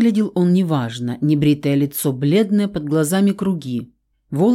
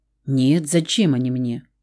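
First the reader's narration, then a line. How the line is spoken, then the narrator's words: Tired question. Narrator (Russian): устало спросил Рауль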